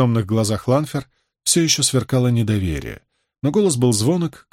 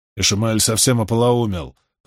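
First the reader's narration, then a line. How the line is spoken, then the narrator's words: Grumbling mutter. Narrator (Russian): пробурчал Самаэль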